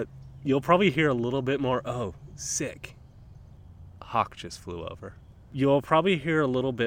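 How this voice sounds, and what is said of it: Usual voice. Nothing is said of it.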